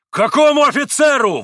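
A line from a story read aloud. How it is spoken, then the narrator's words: Yelling. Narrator (Russian): вопил Митя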